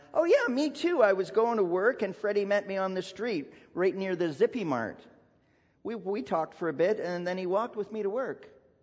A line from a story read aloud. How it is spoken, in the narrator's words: piped up and announced